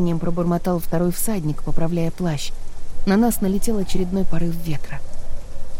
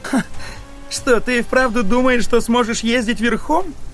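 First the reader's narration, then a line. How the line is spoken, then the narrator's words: Mocking loud laughter. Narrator (Russian): расхохотался тот говнюк, который шел за мной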